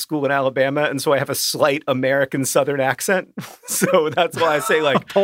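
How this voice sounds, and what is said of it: Usual voice. Nothing is said of it.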